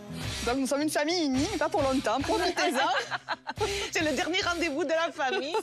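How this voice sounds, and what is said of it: Sing-song southern French accent. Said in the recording (French): “ce petit accent chantant? ... notre famille nous vient tout droit du sud, de la région de Marseille”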